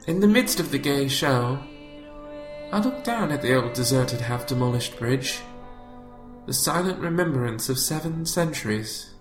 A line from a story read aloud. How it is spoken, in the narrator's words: He noted wistfully